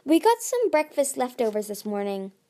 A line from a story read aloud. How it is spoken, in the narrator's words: Clay said with a sigh